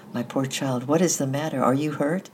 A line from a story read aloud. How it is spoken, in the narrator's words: cried Madame Morel